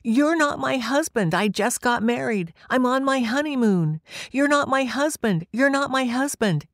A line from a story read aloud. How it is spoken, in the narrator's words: kept screaming through my brain